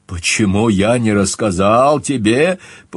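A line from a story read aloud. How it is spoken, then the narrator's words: Incredulous repetition. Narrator (Russian): повторил, словно не веря собственным ушам, Скальф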